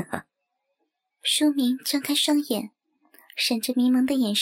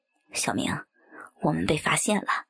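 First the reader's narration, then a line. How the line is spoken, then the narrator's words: Low whisper. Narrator (Chinese): 阿明便低声说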